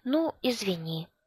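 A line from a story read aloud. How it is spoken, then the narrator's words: Said softly. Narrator (Russian): сказала она тихонько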